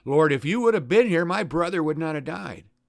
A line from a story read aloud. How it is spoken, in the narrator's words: says angrily